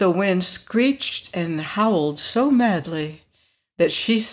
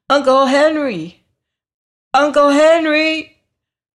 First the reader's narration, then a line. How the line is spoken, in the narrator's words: so she called as loudly as she could